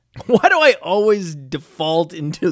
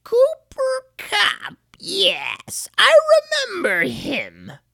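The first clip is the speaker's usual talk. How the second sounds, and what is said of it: Evil old witch voice. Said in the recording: “the witch voice when I try to go old ... every time I try to go old, I sound evil”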